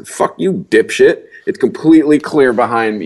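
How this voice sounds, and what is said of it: Yelling angrily. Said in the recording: “yelling”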